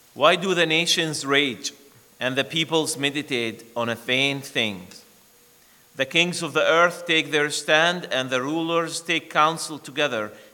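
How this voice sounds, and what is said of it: Non-native English accent. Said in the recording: “I pray that you understand my accent.”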